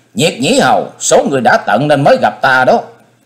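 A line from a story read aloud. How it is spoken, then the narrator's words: Sudden hissing shriek. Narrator (Vietnamese): Hắc Diện Thần Trùng bỗng rít lên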